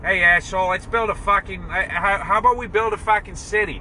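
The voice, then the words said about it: Boston accent. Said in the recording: “what's the Boston accent?”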